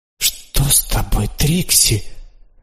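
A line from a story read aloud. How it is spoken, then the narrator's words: Exclamation. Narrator (Russian): воскликнула она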